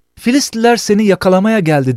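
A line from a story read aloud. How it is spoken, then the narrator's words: Shouts. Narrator (Turkish): diye bağırır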